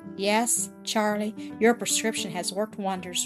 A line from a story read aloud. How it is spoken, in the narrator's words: Rupert replied with a happy laugh